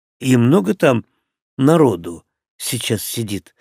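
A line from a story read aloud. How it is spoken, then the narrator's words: Forced calm question. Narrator (Russian): стараясь говорить спокойно, спросил я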